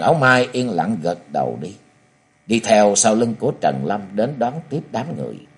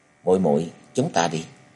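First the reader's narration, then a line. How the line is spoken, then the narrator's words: Sighing. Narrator (Vietnamese): Trần Lâm gật đầu thở dài, hướng về phía Trần Áo Mai và nói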